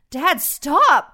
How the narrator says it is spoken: I pleaded with him

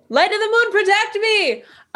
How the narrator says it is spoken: So I yell

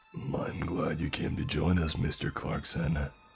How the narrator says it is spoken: Ned said with a slight growl and a sick smile

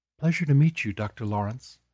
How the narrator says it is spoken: Mariana said, her voice low and soft, very non-threatening

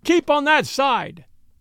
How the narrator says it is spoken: he shouted

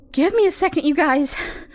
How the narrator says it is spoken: she panted

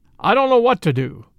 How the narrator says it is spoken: cried the sheriff despairingly

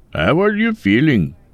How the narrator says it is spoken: Mike laughed

